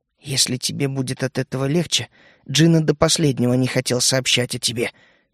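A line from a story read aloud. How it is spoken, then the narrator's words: Quiet, head down. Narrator (Russian): не поднимая головы, тихо произнесла она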